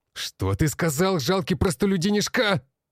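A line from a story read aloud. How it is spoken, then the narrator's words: Barked. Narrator (Russian): рявкнул блондин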